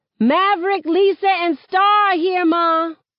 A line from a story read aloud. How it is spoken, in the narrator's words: hollering back